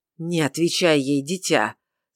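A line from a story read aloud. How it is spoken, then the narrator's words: Angry interjection. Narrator (Russian): сердито вмешался в разговор Гулдмар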